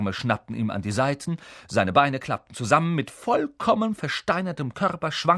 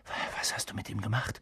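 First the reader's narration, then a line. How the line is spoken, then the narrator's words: Whispering. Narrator (German): flüsterte Harry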